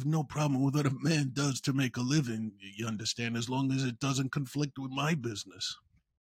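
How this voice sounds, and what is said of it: Poor imitation of another person's voice. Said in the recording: “that was a horrible Brando impersonation”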